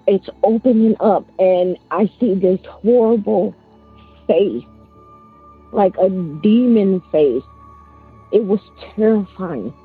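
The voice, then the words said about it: Emotional, shaky voice. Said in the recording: “I'm getting a little emotional”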